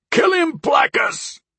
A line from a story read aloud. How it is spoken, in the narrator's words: another yelled out